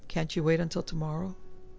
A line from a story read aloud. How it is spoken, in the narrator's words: His voice was flat